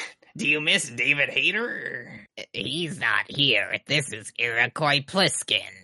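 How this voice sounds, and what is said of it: Usual voice. Nothing is said of it.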